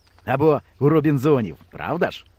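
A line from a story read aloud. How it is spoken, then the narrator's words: Plain. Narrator (Ukrainian): сказав вожатий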